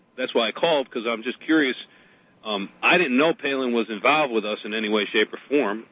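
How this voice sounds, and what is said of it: Noticeable accent. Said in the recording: “You hear my accent, by the way ... you hear my accent.”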